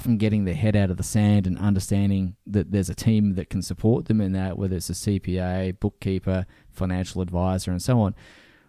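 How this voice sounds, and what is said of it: Australian or British accent. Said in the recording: “your amazing accent ... from down under or the UK”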